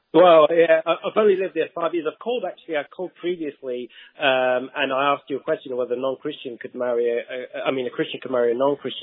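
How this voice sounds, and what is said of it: Strong Texas accent. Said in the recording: “Your Texas accent is very strong.”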